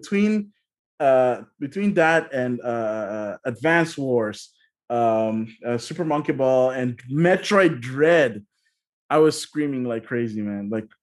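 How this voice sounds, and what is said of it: Slightly hoarse voice. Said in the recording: “you can probably hear it from my voice when I woke up this morning was a little bit hoarse”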